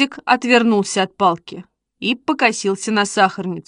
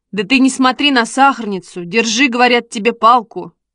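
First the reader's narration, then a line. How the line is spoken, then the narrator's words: Sharp rebuke. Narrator (Russian): прикрикнул Костя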